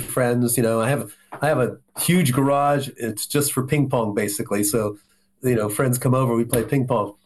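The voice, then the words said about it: Voice slightly affected by a cold. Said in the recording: “I have a little cold”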